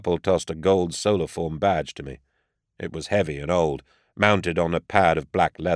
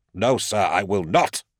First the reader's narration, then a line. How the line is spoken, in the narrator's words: snapped Karpel